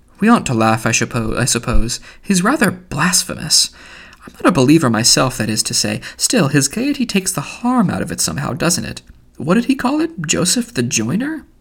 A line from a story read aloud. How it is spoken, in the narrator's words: Haynes, who had been laughing guardedly, said